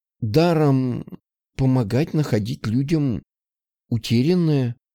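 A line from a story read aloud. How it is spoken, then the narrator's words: Slightly hesitant woman. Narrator (Russian): Немного неуверенно озвучила женщина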